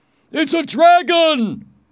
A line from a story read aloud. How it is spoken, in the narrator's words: one of the knights shouted